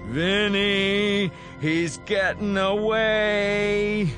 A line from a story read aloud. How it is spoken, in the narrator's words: He screams